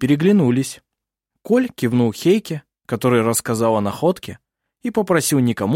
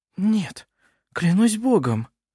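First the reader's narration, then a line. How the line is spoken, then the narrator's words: Whisper. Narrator (Russian): прошептала она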